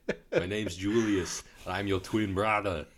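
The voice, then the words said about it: Imitates another person's voice. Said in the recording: “my Christopher Walken impression”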